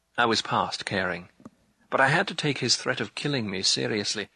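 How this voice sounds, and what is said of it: Usual voice. Nothing is said of it.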